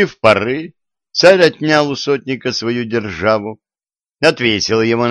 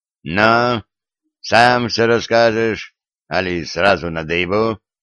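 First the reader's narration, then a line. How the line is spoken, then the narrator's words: Tsar's threatening question. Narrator (Russian): грозно спросил царь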